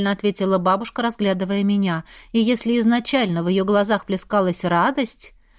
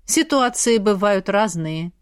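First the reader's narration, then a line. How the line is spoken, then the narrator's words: Stern reply. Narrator (Russian): строго ответил Еминаэль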